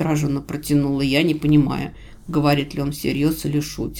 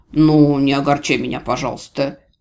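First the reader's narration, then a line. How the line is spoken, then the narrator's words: Grumbling, mock offense. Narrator (Russian): проворчал он с нарочитой обидой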